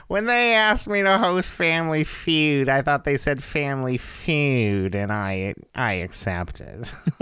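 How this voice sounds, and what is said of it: Imitates another person's voice. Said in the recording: “three impressions”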